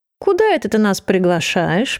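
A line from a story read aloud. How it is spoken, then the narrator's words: Purring. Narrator (Russian): промурлыкал Франк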